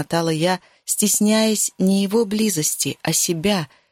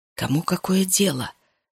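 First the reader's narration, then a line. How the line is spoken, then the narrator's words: Very close whisper. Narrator (Russian): шепнул Макс так близко, что я ощутила шепот кожей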